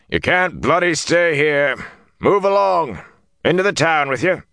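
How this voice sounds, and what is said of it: Hoarse shouting soldier voice. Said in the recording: “he was shouting in a hoarse voice.”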